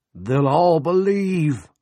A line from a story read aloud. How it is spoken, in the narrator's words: Coggins cried